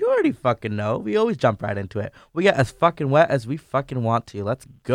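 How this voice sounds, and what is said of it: Usual voice. Nothing is said of it.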